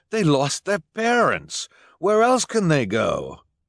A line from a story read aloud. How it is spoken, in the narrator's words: Jerome cried